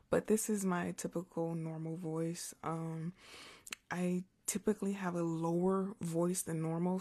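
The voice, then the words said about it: Slightly hoarse, naturally low voice. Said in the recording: “I might sound a little hoarse, because if I whisper for so long, my voice is a little hoarse ... my normal speaking voice is naturally lower”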